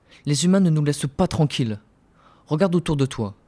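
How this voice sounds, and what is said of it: Antillean French accent. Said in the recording (French): “c'est pas un accent antillais ça ?”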